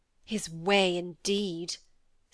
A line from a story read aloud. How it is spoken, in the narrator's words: said Cynthia scornfully